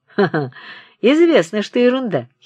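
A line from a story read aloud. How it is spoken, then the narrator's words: Giggling. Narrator (Russian): хихикает Обносков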